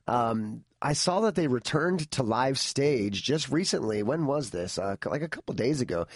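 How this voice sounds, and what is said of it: Slightly hoarse, fading voice. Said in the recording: “I'm kind of losing my voice a little bit.”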